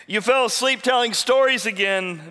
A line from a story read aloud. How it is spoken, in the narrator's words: shouted